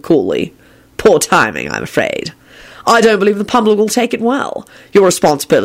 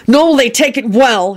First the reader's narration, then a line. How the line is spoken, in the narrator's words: Harry shouted as he leapt from his chair